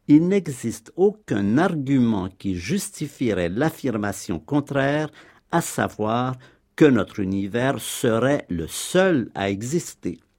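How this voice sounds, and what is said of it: Sing-song French accent. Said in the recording (French): “Hubert Reeves et son accent chantant”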